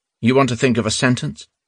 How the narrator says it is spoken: asked curtly

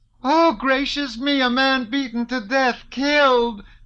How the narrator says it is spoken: screamed a woman

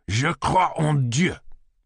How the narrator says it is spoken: Rousseau exclaimed angrily

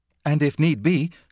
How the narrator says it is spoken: cried Frida

